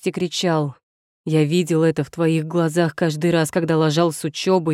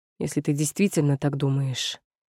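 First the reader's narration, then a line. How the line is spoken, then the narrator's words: Quiet. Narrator (Russian): сказал он тихо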